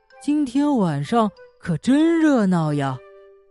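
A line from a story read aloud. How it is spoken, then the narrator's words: Soft. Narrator (Chinese): 鼹鼠轻声说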